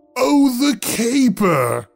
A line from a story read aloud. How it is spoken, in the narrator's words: roared